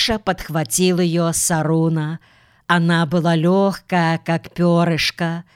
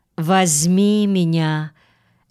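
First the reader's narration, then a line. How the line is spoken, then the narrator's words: Childlike. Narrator (Russian): Аленка сказала, как ребенок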